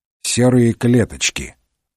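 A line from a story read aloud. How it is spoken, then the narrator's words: Gloomy reply. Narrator (Russian): мрачно ответил Холмс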